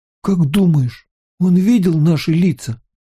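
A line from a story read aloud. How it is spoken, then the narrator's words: Trembling voice. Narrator (Russian): спросил Райан дрожащим голосом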